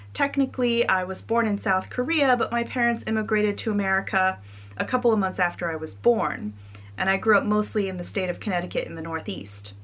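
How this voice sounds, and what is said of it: American accent. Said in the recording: “as you might be able to tell from my accent, I am from the US.”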